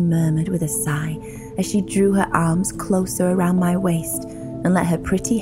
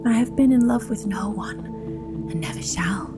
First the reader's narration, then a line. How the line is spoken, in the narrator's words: she whispered